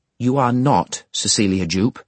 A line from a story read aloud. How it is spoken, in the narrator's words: Thomas Gradgrind solemnly repeated